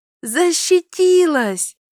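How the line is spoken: Loud shout. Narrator (Russian): Громко крикнула я

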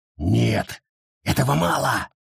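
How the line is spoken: Stubborn growl. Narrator (Russian): прорычал Уоллис, упрямо

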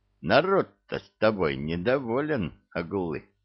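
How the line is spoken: Gentle, affectionate. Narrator (Russian): ласково произнес

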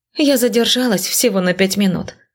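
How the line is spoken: Grumbling. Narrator (Russian): ворчала я за ужином

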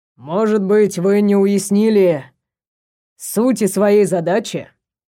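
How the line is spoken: Soft purring voice. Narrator (Russian): Голос Джайлза стал до того мягким, что больше напоминал мурлыканье

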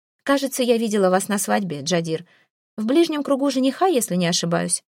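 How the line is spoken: Casual offhand question. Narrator (Russian): Небрежным тоном интересуюсь я

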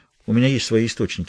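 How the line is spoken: Calm reply. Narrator (Russian): спокойно ответил Хэммонд

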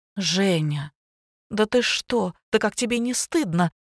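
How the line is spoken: Frightened flustered exclamation. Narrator (Russian): Испуганно всполошилась Лина

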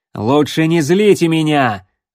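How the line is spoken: Loud. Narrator (Russian): громко сказал Рексволд

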